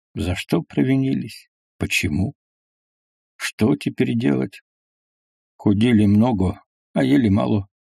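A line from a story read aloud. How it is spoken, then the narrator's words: Quiet speech. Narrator (Russian): проговорил Петрушка негромко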